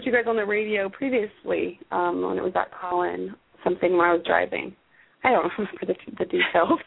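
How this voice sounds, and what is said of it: Raspy voice from a cold. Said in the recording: “having a cold ... raspy ... I'm very raspy.”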